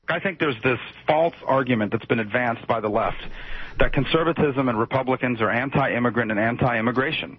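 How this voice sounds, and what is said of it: Uncannily good Marco Rubio impression. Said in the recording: “Here is my Marco Rubio impression. ... That was eerie, wasn't it, how good that was?”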